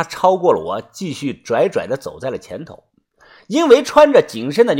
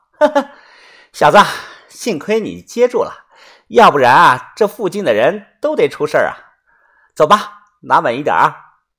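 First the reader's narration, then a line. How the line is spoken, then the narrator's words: Laughing. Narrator (Chinese): 他笑着说道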